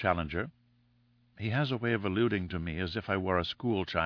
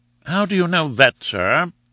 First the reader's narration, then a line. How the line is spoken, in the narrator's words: asked Summerlee, sharply